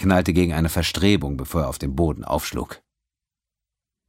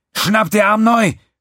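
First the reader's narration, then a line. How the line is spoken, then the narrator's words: Shouted. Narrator (German): schrie Quinn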